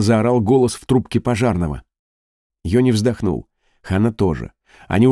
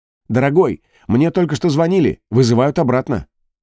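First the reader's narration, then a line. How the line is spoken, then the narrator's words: Shouting. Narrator (Russian): Ханна крикнула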